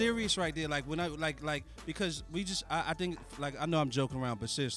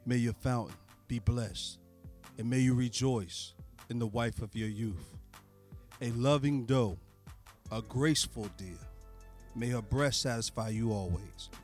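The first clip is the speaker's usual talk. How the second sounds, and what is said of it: Slick, smooth put-on voice. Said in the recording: “I'm gonna read it in my slick voice.”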